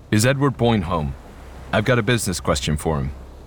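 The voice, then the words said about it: Low, demanding American-accented male voice. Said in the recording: “The man's voice was low and demanding. ... His American accent”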